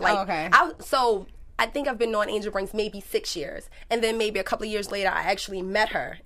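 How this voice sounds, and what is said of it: Thick regional accent. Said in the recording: “That accent is thick.”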